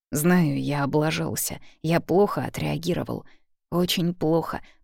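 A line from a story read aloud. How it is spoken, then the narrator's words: Muttering. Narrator (Russian): бормочу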